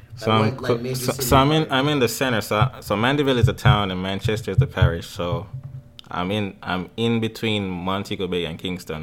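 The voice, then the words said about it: Strong Jamaican accent. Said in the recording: “accent, y'all need to hear that accent. ... He got the strong Jamaican accent”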